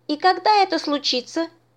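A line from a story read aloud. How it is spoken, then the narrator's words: Cheerful. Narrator (Russian): весело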